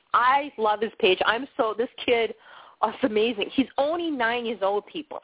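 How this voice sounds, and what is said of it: Bostonian accent. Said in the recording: “I do have that funny Bostonian accent”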